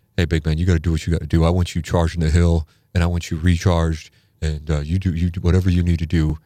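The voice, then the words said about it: Imitates another person's voice. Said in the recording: “I'm going to bust into a Hadley impression ... I bust into impressions”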